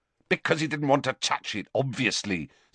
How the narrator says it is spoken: said Harry angrily

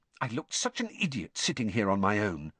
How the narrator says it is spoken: she muttered

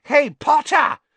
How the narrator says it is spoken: shrieked Pansy Parkinson, a Slytherin girl

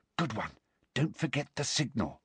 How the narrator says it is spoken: Hermione whispered

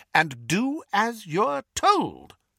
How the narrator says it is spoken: Weasley firmly

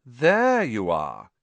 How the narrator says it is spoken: he drawled

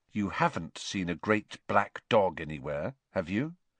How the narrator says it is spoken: he said in a low, serious voice

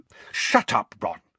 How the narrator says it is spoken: said Hermione angrily

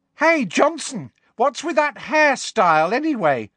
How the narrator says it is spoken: shrieked Pansy Parkinson

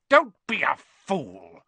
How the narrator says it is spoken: snarled the face

